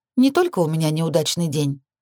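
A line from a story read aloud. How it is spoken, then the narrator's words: Light, tentative tone. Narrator (Russian): предположила я, пытаясь легким тоном развеять тяжелую атмосферу недоверия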